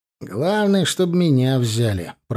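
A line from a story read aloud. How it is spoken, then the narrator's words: Grumbling. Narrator (Russian): проворчал Тимур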